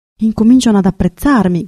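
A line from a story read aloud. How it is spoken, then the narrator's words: Shout. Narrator (Italian): gridò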